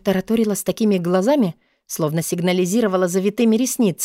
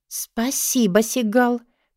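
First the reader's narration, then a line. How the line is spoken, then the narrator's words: Confused mutter. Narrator (Russian): пробормотала я растерянно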